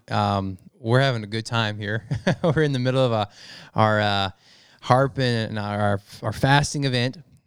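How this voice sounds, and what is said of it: Worn-out, tired voice. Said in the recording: “my voice is a little worn out”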